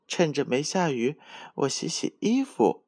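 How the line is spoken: Smiling. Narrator (Chinese): 乌龟妹妹笑着说

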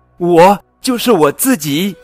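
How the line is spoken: Joyful shout. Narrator (Chinese): 他满怀喜悦的大喊

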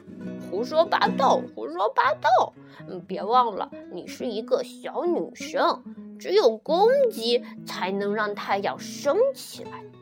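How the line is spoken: Mocking chubby kid. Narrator (Chinese): 小胖墩嘲笑他

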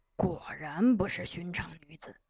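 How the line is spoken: Low voice. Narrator (Chinese): 朱王礼只管低声说

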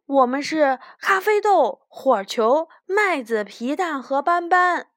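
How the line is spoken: Carefree, casual. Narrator (Chinese): 他大大咧咧地说

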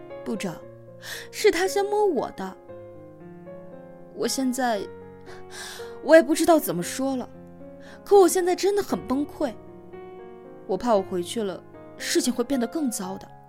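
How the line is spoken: Tearful voice. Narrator (Chinese): 鼻头一酸，拖着哭腔说

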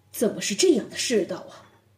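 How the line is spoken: Angry muttering. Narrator (Chinese): 展昭听后又是怒火填膺，口中喃喃道

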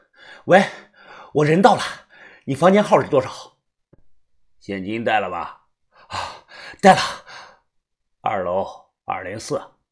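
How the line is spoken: Panting. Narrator (Chinese): 我喘着气说

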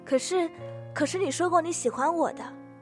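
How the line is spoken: Sudden loud speech. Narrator (Chinese): 忽然大声地说

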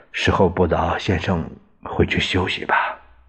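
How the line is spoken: Low voice. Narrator (Chinese): 侍卫长于继时低声说

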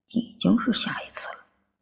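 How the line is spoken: Muttering. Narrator (Chinese): 不由得嘟囔了一句

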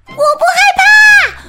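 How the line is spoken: Shouting together. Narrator (Chinese): 丽丽、衣柜精灵、风扫帚和搅拌机一起放声大喊

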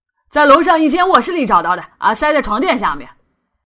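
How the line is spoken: Loud. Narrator (Chinese): 威利大声的说

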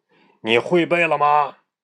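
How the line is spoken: Stern question. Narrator (Chinese): 先生厉声问道

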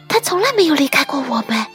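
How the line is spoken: Quiet, duck. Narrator (Chinese): 鸭子小声地说

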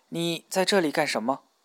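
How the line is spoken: Stammering question. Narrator (Chinese): 他结结巴巴地问

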